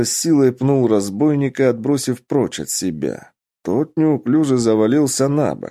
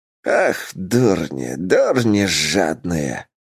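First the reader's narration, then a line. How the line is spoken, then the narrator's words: Hissed. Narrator (Russian): прошипел Ойл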